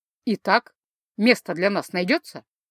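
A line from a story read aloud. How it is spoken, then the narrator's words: Calm. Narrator (Russian): Спокойно проигнорировал вопрос сэр Толеснал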